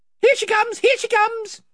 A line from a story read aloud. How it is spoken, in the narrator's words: they cried